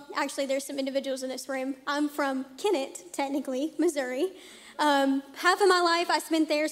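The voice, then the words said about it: Non-Oklahoman regional American accent. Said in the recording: “if you can't tell by my accent, I'm not from Oklahoma”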